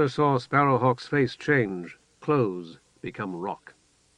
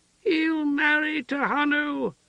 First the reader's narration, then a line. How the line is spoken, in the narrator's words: the woman shrieked, joyful